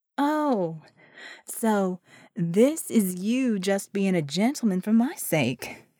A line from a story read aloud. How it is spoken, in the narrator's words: she drawled